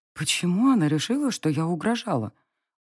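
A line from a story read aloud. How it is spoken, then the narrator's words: Very quiet clarifying. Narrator (Russian): уточнила я тихо-тихо, зная, что девочка услышит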